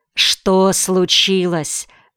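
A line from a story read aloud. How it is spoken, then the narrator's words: Plain. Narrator (Russian): спросил дядя Кмоль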